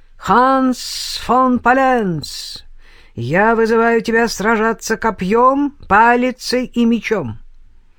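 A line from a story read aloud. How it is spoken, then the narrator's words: Strong voice shouting. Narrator (Russian): чей-то сильный голос выкрикнул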